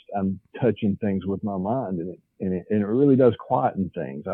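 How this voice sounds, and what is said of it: Southern US accent. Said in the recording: “I can tell by your accent, you're definitely from the South.”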